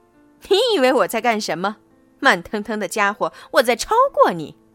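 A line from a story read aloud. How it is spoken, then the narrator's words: Loud laughter. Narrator (Chinese): 哈哈哈哈路霸大笑着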